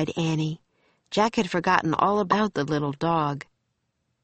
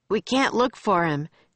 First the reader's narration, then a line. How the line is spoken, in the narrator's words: shouted Jack